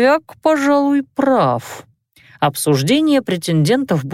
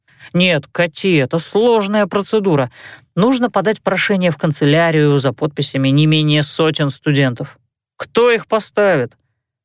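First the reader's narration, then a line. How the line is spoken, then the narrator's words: Snorting. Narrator (Russian): Мартен фыркнул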